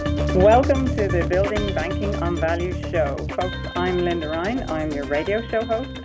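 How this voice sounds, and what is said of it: Irish accent. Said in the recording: “I'm sure you can hear I have an Irish accent.”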